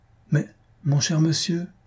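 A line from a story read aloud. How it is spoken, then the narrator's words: Stammering. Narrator (French): balbutia Blanquette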